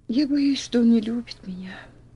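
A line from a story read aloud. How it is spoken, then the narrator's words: Sighing. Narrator (Russian): вздохнула Элси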